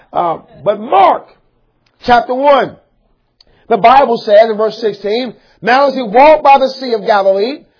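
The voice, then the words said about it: Hoarse, strained preaching voice. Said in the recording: “I'm getting kind of hoarse.”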